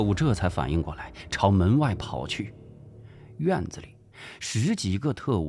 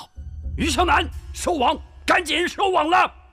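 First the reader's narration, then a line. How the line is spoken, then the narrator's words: Loud shout. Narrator (Chinese): 古正文跑到门口，大声喊道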